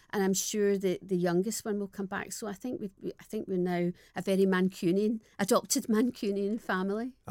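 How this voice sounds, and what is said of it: Strong non-posh Scottish accent. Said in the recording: “Charlie would always say that I still have the strongest Scottish accent, but it's not posh.”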